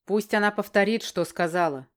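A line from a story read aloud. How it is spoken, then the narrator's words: Growled. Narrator (Russian): прорычал Барден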